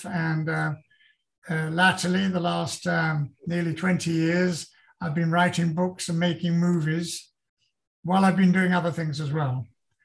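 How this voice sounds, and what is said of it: Lilting accent. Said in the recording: “that lovely lilt has not left you ... I've still retained the accent”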